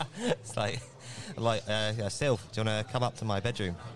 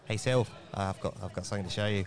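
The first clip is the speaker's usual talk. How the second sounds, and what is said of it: Bad New Zealand accent, sounds Australian. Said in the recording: “Apologies for any Kiwi listeners for that atrocious accent. ... That's just full Australian.”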